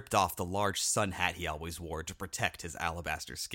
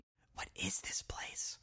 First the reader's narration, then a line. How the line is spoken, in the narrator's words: Juniper whispered